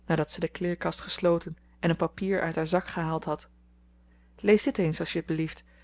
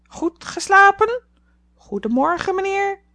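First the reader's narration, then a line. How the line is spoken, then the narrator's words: Solemn bird call. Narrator (Dutch): de vogel, zeer ernstig riep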